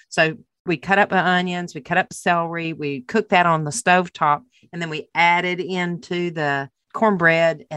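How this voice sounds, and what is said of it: Southern US accent. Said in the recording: “I grew up down South ... every single person in my family has the same accent you do”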